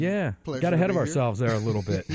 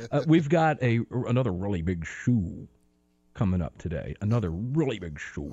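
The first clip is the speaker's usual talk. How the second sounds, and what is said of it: Bad Ed Sullivan impression. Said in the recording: “Sullivan ... another bad impersonation”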